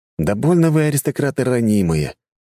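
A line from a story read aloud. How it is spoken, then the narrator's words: Sighing. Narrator (Russian): вздохнул я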